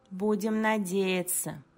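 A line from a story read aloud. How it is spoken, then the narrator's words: Muttered. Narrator (Russian): пробормотал Инг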